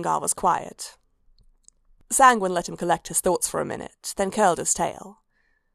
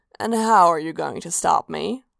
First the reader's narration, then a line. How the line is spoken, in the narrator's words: Sanguine purred